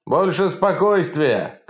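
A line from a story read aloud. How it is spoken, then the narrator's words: Shout. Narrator (Russian): кричал Токарев своей молодежи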